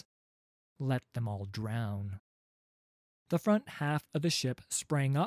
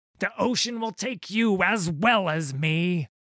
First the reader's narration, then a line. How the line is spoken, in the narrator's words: he screamed